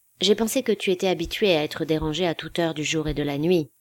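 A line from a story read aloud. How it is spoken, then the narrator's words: Plain. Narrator (French): dit Dansk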